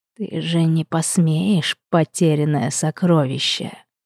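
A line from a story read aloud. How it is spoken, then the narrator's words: Sudden snake-like rasp. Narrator (Russian): Внезапно прохрипел мужчина, словно змея или василиск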